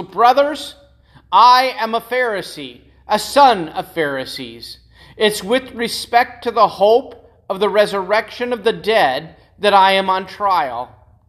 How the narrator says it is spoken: Paul he cried out in the council

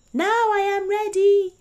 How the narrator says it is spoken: he cried

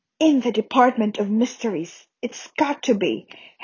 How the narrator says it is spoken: Harry whispered

